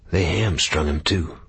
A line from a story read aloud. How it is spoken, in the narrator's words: Bigfoot whispered